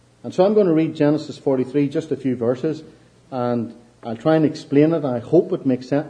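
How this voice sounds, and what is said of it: Irish accent. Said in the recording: “I hope my accent, you can follow me okay and understand this Irish accent.”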